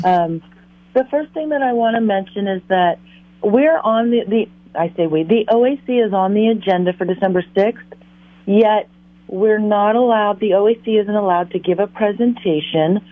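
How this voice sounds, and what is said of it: Hoarse, froggy voice. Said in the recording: “my voice is a little froggy”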